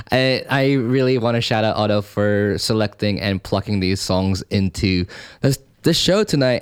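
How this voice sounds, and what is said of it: Thick accent. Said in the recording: “my accent is really coming really thick today”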